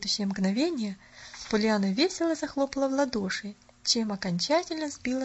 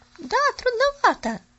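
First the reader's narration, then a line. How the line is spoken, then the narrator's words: Girl's exclamation. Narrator (Russian): воскликнула девочка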